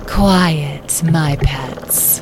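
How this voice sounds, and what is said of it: Calm, deep character voice. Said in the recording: “A calm, deep voice”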